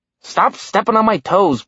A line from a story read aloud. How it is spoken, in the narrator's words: Blitz grumbled